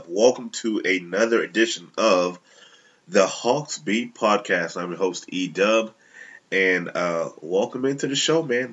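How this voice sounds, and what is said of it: Nasal, congested voice. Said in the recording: “I sound a little nasally. I'm a little under the weather... wreaking some havoc with my sinuses”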